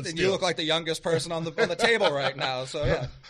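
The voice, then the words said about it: Boston accent. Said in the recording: “You hear the Boston in my voice. I know you do. I'm from Boston.”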